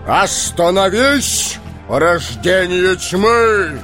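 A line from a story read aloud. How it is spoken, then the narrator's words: Resonant voice. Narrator (Russian): звучным голосом произнес Гэндальф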